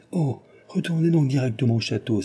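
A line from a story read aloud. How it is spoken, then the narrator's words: Exclaiming. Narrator (French): s'écria Cécile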